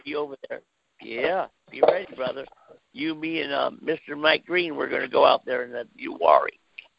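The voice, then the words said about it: Run-down, strained voice. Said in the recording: “I do apologize for my voice ... Little whatever run down”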